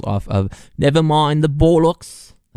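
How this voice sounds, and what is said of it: Deliberately bad British accent. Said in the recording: “That was a terrible British accent.”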